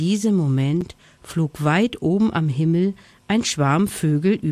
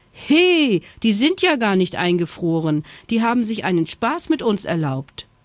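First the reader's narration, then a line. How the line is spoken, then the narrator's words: Indignant shout. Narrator (German): rief empört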